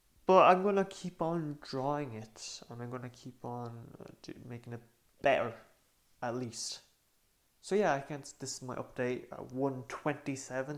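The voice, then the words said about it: Tired-sounding voice. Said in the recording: “if my voice is a little bit tired”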